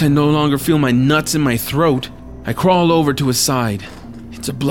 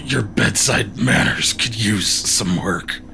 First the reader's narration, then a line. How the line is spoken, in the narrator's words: says through gritted teeth